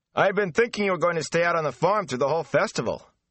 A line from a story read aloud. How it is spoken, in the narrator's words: Perrin Ebarra shouted at Rand over the clamor